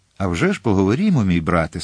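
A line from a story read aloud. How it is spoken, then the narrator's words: Almost cheerful. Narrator (Ukrainian): сказала вона майже весело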